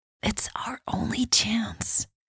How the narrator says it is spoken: Michelle whispered

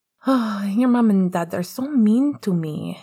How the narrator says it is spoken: he sighed

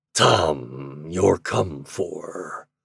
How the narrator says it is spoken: said, gruffly

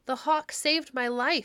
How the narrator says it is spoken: he cried

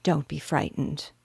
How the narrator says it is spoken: she said in a soft voice

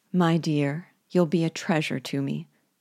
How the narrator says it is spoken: said Nancy in her gentle voice

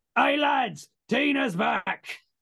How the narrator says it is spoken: he sort of shouts over his shoulder

